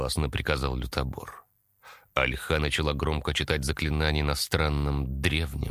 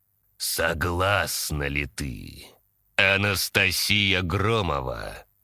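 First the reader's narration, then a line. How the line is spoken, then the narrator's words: Solemn, ominous question. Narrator (Russian): Торжественно и зловеще спросила Альха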